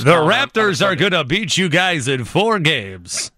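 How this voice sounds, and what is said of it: Impression of a Canadian radio reporter. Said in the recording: “good impersonation.”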